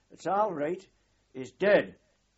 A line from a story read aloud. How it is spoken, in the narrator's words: an unknown Geordie voice shouted